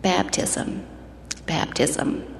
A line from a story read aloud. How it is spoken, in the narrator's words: in almost a whisper replied